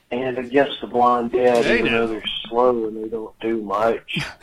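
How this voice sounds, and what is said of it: Southern accent, groggy under-the-weather voice. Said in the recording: “he was under the weather, too ... Either that or he just woke up ... That's how I sound when I wake up. Minus the, southern accent”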